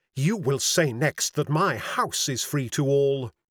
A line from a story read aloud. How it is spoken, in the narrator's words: said hotly